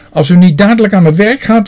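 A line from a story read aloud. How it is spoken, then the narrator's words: Shouting. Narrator (Dutch): riep ze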